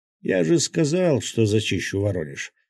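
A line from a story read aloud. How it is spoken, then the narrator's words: Calm. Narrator (Russian): спокойно произнес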